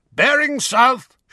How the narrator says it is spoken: shouted Mad-Eye

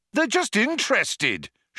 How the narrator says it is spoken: shouted Zaphod

